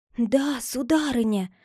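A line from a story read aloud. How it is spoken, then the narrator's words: Old woman whispering. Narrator (Russian): ответила старая экономка шепотом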